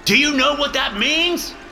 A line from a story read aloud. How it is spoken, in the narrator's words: He shouts